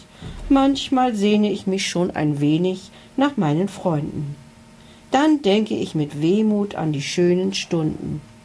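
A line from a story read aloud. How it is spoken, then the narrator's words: Sad sigh. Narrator (German): seufzte er traurig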